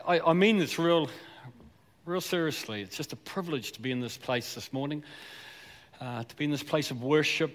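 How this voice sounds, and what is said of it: Southland New Zealand accent. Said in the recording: “I was born and bred in Southland, so a bit of that accent's going to come out ... I'm a South Islander”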